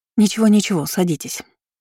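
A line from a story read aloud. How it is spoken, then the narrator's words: Plain. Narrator (Russian): сказала Людмила Анатольевна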